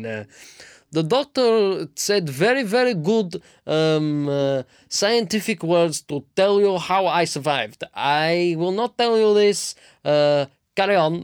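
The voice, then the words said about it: Put-on Russian accent. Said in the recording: “Speaking in a Russian accent”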